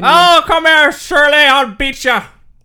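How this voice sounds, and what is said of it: Weak put-on Irish accent. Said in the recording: “it's still a bad accent, but as far as your accents go, it's one of your better ones... It's not good”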